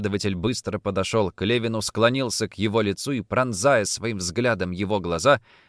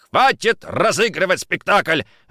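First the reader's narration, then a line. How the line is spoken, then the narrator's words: Barked. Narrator (Russian): рявкнул он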